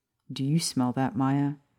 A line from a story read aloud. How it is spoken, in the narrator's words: Sirius asked, his voice anxious